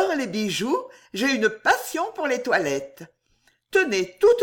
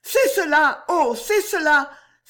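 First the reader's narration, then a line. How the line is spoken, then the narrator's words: Excited cry, clapping. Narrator (French): s'écria Juliette en battant des mains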